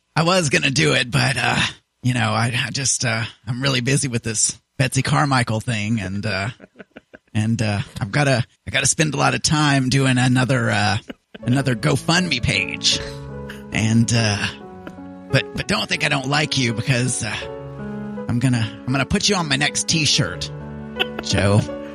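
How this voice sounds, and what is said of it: Imitates another person's voice. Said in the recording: “I can't do this voice... If you know who I'm trying to be... you're Joey Boo-Hacker”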